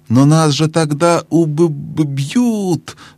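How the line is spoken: Stammering. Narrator (Russian): заикаясь, проговорила Лассаралин

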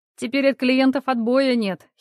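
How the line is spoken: Giggling. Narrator (Russian): хихикнула Соня

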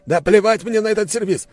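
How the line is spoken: Yelling. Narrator (Russian): заорал Аристарх

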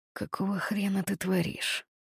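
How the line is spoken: Threatening growl. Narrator (Russian): угрожающе прорычал голос рядом со мной

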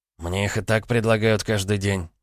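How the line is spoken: Grumbled. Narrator (Russian): буркнул Илья

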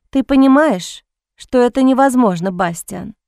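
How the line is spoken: Sad, smiling. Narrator (Russian): Грустно улыбнулась она

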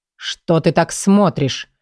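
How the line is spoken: Irritated. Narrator (Russian): раздраженно обратился к Оксане Микаэл

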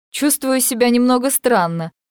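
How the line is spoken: Laughing. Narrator (Russian): смеясь, говорит она

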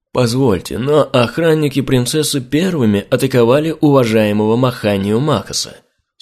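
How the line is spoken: Calm. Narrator (Russian): спокойно произнес Балаватх

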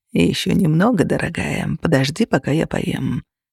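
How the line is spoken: Purring in ear. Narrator (Russian): промурлыкал Костя ей на ухо

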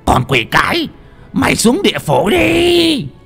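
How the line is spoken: Old man hissing. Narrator (Vietnamese): lão rít lên

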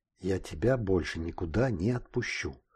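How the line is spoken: Whisper. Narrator (Russian): прошептала она

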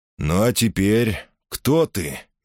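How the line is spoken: Gentle question. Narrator (Russian): мягко спросил незнакомец

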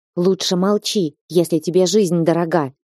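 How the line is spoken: Hissing. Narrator (Russian): прошипел

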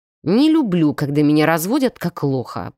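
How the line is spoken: Growl. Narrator (Russian): прорычал он

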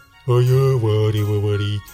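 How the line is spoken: Cauldron's booming drone. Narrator (Russian): прогудел котел

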